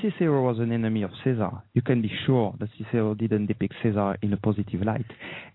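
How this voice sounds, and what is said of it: Slight French accent. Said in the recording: “I have a slight French accent.”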